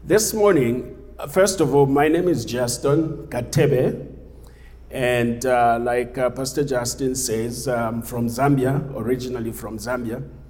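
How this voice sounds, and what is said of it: Zambian-accented English. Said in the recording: “a funny accent”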